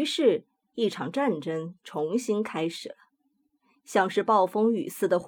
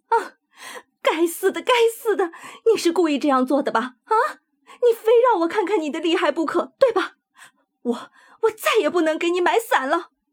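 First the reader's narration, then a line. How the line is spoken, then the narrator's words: Loud shout. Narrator (Chinese): 他的声音从愤怒之中恢复过来，他大声喊道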